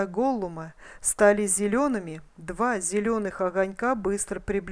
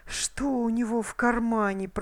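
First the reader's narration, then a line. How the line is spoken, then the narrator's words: Hissing. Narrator (Russian): прошипел Голлум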